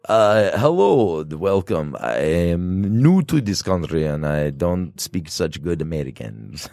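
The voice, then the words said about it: Put-on Russian accent, broken English. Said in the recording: “I once waited tables an entire day with a Russian accent, pretending like I just learned like a little bit of English.”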